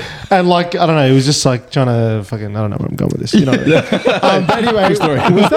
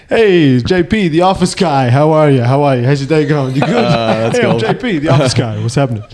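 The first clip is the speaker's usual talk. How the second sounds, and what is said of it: Imitated New Jersey accent. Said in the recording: “he's got this funny, hilarious, like New Jersey accent.”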